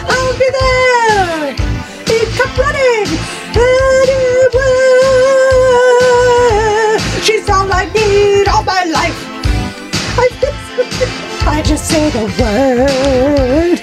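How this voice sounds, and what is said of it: Posh royal British singing voice. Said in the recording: “you sounded like a royal. You sounded like the queen.”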